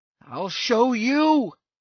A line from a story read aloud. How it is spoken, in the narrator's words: he cried